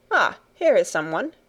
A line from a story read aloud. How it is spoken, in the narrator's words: exclaimed Herr Sesemann